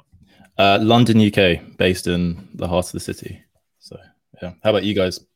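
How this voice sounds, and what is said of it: London English accent. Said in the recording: “I love the accent.”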